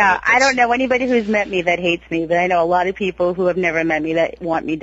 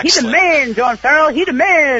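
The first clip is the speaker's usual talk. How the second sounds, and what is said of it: David Ortiz impression. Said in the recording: “that David Ortiz impression? Because that was phenomenal.”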